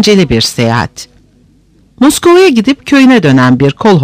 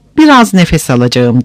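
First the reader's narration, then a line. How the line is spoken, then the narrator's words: Plain. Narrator (Turkish): dedi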